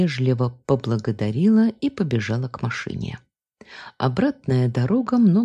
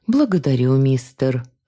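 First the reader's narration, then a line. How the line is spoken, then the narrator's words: Sigh. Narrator (Russian): вздохнула я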